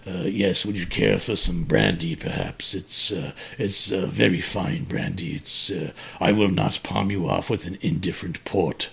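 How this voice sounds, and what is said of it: Put-on elegant English accent. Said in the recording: “my elegant accent ... I'm using an English accent. That should make me seem more authoritative than some regular coal region dialect”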